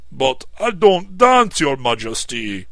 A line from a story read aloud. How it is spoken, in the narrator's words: exclaimed the horrified chief counsellor